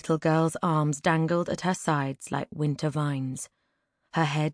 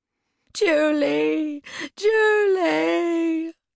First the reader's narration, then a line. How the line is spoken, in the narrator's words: The woman moaned